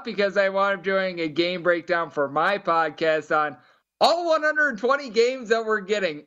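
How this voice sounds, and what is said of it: Hoarse, worn-out voice. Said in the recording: “My voice is a little bit shot”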